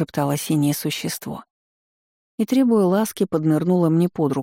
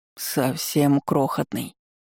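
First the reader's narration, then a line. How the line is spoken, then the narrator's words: Soothing drawl. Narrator (Russian): успокоительно протянул хитрец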